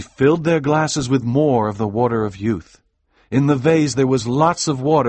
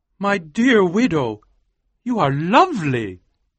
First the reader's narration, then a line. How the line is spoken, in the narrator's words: cried Colonel Killigrew